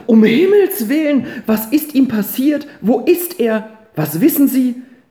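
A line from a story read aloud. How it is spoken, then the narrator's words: Calling out. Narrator (German): rief Frau Tischbein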